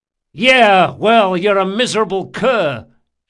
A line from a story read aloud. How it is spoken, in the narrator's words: shouted Locke